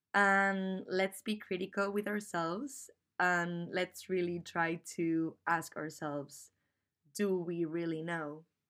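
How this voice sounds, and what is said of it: Non-native English accent. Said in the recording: “my funny accent ... I'm not a native English speaker”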